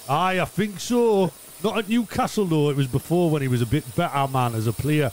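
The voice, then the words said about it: Geordie accent. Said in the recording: “my Geordie accent”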